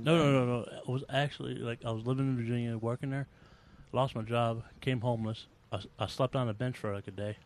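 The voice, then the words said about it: Southern US accent. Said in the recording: “the accent you got sound like like Sarah falling off a tree ... you sound like uh, I I, I would have guessed Alabama.”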